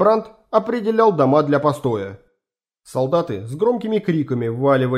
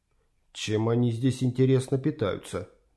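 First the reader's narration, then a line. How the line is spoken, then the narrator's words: Quiet, into ear. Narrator (Russian): тихо сказал ему на ухо красавчик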